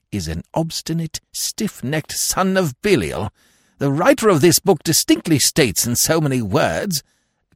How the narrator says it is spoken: observed Lord Emsworth bitterly

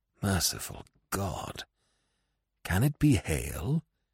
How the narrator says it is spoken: he muttered

